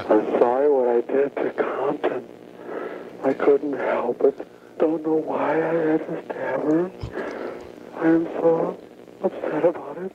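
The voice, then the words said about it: Weepy, crying apologetic voice. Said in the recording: “the weepy, weepy voice killer ... I can do an okay impression ... And he'd start crying”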